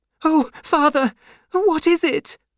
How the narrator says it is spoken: cried Lucy

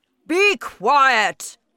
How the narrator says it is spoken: shouted the Trunchbull

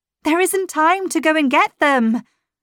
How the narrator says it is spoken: I cried

